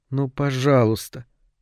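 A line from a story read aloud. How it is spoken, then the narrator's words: Quiet pleading. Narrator (Russian): тихо попросила она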